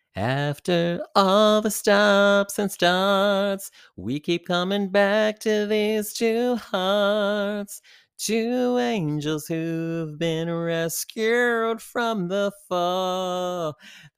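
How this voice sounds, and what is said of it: Sung impression of another singer. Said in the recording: “my Cher impression”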